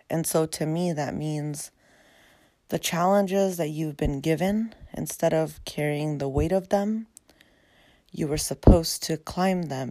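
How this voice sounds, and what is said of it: Raspy, tired low-energy voice. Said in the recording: “I've had a really long day, so excuse my raspy voice. It's not very podcast energetic yet.”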